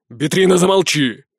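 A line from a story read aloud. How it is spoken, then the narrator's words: Frowning bark. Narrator (Russian): Вдруг рявкнул нахмурившийся Дон Айканар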